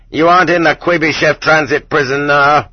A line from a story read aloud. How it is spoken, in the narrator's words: Several of them at once yelling in unnaturally loud voices